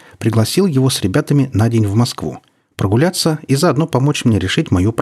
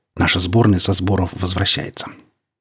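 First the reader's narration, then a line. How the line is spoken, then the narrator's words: Respectful crowd whispering. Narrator (Russian): Народ уважительно шептался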